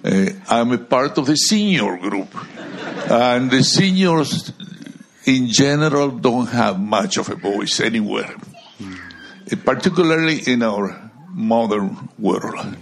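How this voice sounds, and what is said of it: Speaks with a noticeable foreign accent. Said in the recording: “please be patient with me, with my accent. I know, I wanted to lose it, but I never could.”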